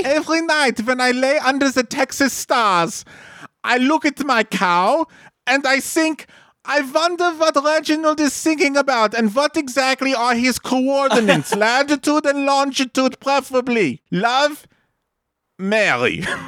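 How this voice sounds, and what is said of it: Reads in a put-on accent. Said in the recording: “she has an accent, but it's hot”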